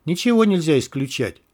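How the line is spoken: Sigh. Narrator (Russian): Стрелянный вздохнул

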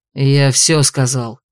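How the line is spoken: Growled. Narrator (Russian): рыкнул Алластер

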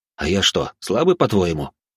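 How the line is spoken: Snorting. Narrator (Russian): хмыкнул я

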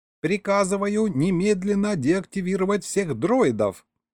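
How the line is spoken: Categorical, commanding tone. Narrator (Russian): категорическим тоном заявил он

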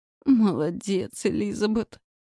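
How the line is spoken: Groan. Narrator (Russian): простонала я

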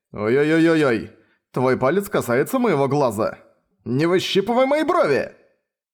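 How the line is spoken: Shouted. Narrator (Russian): Райнер закричал

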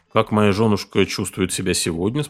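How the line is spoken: Plain. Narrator (Russian): спросил он

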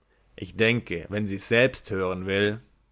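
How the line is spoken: Laughed scornfully. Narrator (German): lachte der Erstere höhnisch

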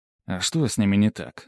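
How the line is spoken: Calm. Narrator (Russian): спокойно ответил я, сохраняя невозмутимый вид

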